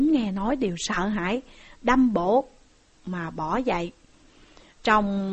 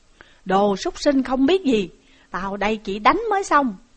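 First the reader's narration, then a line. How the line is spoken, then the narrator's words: Shout. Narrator (Vietnamese): Dương Chí lại quát lên rằng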